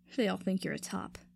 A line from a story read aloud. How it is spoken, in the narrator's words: Kotsky scoffed